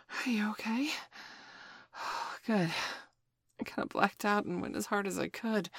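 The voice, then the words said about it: Out of breath, panting. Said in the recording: “I'm actually out of breath.”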